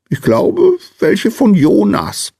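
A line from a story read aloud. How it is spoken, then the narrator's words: Small man's squeak. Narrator (German): piepste der kleine Mann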